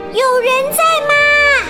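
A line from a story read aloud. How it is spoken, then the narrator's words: Calling into cave. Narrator (Chinese): 波儿冲洞里喊道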